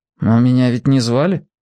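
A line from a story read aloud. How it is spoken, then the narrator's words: Indifferent voice. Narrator (Russian): равнодушным голосом произнес Генка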